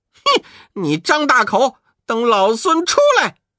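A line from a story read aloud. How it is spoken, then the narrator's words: Unwilling defiant shout. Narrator (Chinese): 悟空不甘心……才叫道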